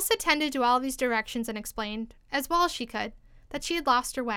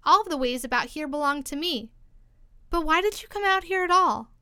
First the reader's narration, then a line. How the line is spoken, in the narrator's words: added in a kinder tone